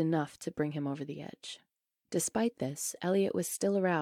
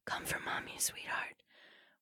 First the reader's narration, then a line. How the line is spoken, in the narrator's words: her hoarse whisper